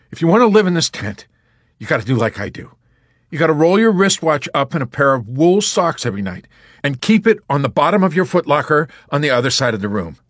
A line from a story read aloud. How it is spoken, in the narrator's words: he explained harshly